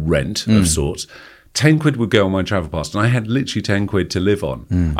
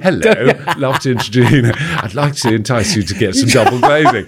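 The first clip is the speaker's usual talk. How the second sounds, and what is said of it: Posh English public school accent. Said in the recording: “my posh public school. ... accent.”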